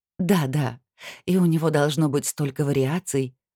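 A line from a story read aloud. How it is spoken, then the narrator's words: Sighing. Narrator (Russian): вздохнула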